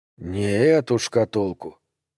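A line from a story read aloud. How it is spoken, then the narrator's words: Quiet. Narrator (Russian): тихо сказал Дрейфус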